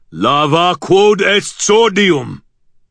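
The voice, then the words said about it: Deep, thundering voice. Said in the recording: “a deep voice thundered”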